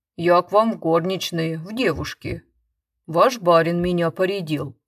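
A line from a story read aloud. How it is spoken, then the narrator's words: Deep woman's voice. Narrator (Russian): отвечала баба густым голосом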